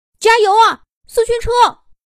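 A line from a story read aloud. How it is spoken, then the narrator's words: Excited crowd shouting. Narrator (Chinese): 人们兴奋的喊着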